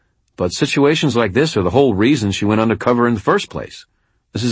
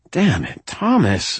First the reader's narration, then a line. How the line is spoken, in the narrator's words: I said wearily